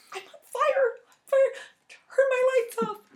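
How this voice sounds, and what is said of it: Little mouse voice. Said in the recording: “In a little mouse voice.”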